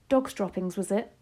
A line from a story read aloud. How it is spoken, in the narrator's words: she said, sighing